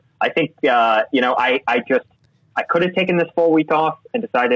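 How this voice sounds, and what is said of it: Usual voice. Nothing is said of it.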